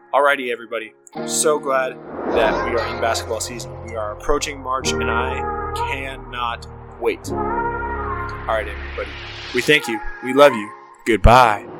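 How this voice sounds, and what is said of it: Strained, fading voice. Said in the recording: “I'm losing my voice. I talked for 30 minutes straight.”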